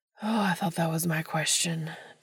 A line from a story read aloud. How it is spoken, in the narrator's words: Dean moans